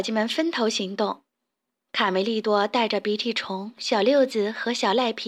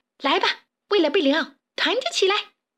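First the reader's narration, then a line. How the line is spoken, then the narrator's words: Chorus shout. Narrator (Chinese): 齐声大喊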